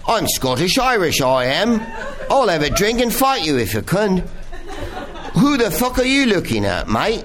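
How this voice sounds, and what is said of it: Weak put-on Scottish-Irish accent. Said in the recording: “My accent's weak and underdeveloped.”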